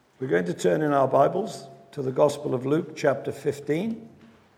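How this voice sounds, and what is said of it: Croaky, hoarse voice. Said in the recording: “my voice is not its usual dulcet tones. I'm a bit croaky”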